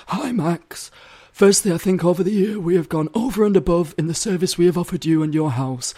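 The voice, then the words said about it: Put-on voice imitating a woman. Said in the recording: “I'm giving her a voice.”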